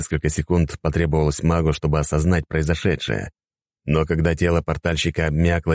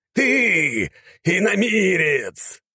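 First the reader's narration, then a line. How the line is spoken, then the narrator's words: Archmage roaring. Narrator (Russian): взревел архимаг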